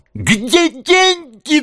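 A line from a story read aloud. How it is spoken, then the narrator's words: Shrill shriek. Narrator (Russian): взвизгнула она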